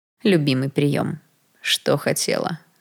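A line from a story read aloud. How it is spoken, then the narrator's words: Plain. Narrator (Russian): спросил Даррелл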